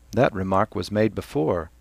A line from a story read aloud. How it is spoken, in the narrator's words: Cranley said calmly